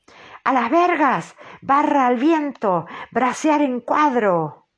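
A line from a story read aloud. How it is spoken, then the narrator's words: Agitated howling captain. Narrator (Spanish): el capitán, lleno de agitación, aulló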